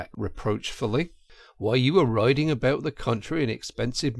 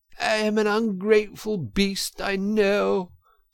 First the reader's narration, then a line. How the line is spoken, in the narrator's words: sobbed Toad, shedding bitter tears